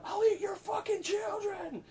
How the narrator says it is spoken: He's screaming

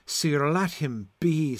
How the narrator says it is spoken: sighed Sir Lucan

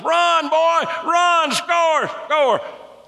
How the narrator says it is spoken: you're screaming to the top of your lungs

